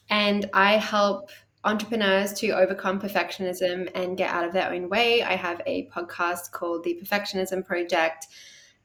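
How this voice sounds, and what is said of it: Australian accent. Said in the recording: “in case you can't tell from the accent, I am Australian”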